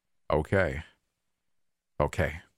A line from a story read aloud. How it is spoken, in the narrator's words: repeated, letting go of a short sigh